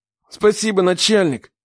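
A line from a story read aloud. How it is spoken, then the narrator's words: Man breathing out. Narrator (Russian): выдохнул мужик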